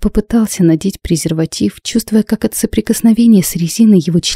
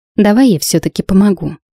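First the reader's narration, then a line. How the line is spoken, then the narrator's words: Slightly displeased voice. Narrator (Russian): произнесла она чуть недовольным голосом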